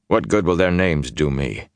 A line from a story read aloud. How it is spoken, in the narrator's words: He asked in a flat voice